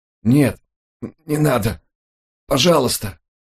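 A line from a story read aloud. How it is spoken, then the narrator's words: Barely audible dying babble. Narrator (Russian): едва слышно пролепетал умирающий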